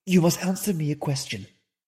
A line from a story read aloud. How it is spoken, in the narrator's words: said she